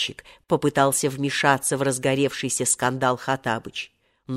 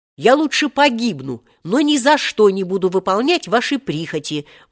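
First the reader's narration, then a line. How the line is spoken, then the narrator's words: Grim shout. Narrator (Russian): мрачно выкрикнул Волька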